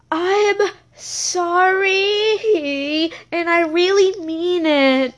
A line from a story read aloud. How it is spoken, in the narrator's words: he said in a trembly voice